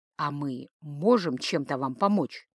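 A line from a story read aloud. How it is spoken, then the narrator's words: Quiet question. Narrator (Russian): тихо спросил и Плесцы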